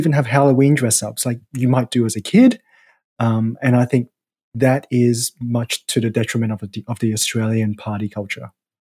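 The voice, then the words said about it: Australian accent. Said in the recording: “You are Australian, if people couldn't tell from your accent”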